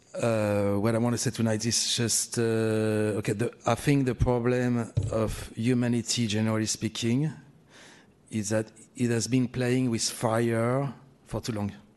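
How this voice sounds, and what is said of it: Noticeable accent. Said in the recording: “my accent is not, you can't avoid it”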